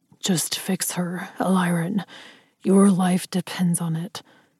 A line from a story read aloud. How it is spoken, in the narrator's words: Ryder said, so softly that I thought I had imagined it